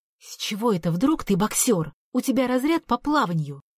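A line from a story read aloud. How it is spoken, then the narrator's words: Angry hiss. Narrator (Russian): Сердито зашипела поскольку потенциальный поклонник моего творчества исчез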